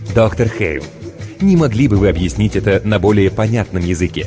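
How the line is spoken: Honeyed commentator inquiry. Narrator (Russian): Медовым голосом осведомился радиокомментатор

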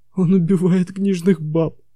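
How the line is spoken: Groaning. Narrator (Russian): Пикпен застонал, сказал

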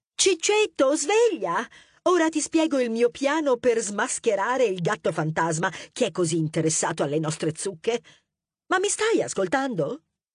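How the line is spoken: Exclaimed. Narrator (Italian): Tenebrosa esclamò

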